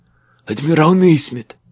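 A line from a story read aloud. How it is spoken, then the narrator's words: Hiss. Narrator (Russian): прошипел швейцар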